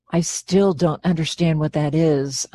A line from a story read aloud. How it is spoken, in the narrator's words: murmured under my breath, not wanting to interrupt